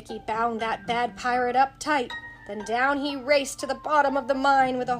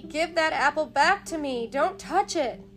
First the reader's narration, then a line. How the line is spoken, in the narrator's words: cried Mickey